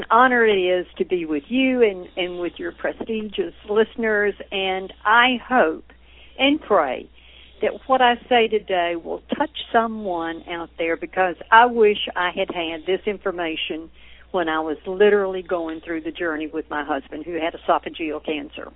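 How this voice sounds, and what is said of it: Southern American accent. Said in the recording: “I can tell that southern accent”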